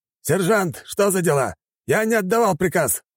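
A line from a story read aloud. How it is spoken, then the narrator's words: Barked. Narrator (Russian): рявкнул Сармашев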